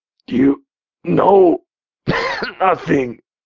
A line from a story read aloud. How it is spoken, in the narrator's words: he drawled, gasping, having a hard time getting his words out